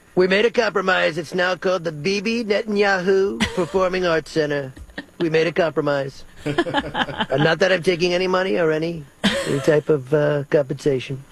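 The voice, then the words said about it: Imitates another person's voice. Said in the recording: “I love your Netanyahu impression. ... That sounds dangerously like Barney Rubble.”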